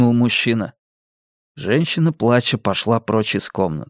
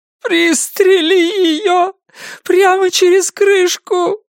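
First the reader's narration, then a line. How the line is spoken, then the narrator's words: Sobbing. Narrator (Russian): зарыдала женщина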